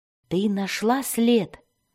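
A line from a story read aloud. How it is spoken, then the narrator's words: Whispered. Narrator (Russian): прошептал Дзирт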